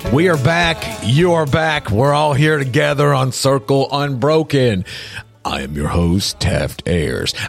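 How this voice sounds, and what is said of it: Deliberately deep voice. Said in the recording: “do my deep voice”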